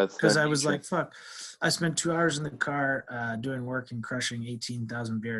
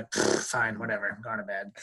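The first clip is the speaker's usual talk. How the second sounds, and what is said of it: Imitates another person's voice. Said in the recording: “That's pretty good impersonation.”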